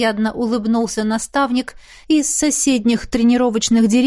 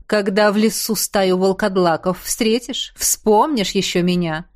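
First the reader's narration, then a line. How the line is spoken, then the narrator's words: Smirking grunt. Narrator (Russian): хмыкнул Кхаанри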